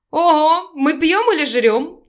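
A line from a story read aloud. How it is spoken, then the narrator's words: Laughing. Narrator (Russian): засмеялась Наталья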